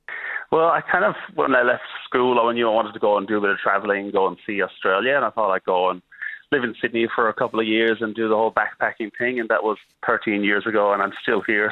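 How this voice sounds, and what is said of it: Accent with a twinge of Melbourne. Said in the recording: “you've got quite the accent there. It is definitely Loch Gray with a twinge of Melbourne”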